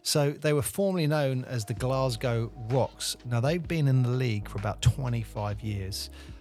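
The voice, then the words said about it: Hoarse, fading voice. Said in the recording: “my voice is a bit going today”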